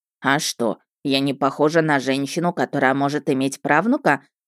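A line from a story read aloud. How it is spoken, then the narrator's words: Snorted, old witch. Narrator (Russian): фыркнула главная ведьма империи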